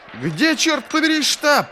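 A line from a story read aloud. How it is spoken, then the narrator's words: Shouting while slipping. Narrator (Russian): прокричал он, поскальзываясь на склоне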